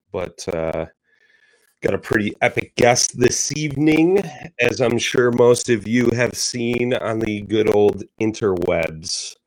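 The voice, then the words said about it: Hoarse, strained voice. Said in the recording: “I've been battling a cold. ... Hopefully I don't lose my voice”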